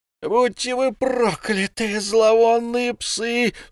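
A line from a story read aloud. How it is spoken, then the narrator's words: Frenzied screaming. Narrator (Russian): вскричал Пью истошным голосом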